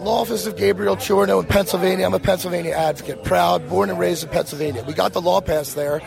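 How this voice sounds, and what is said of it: Slightly hoarse voice. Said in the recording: “Excuse my voice a little hoarse.”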